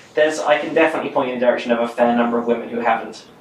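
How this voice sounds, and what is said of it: British accent. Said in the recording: “this voice in Britain... your accent”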